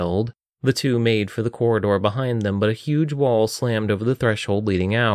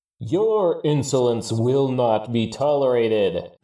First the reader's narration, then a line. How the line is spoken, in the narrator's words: the voice boomed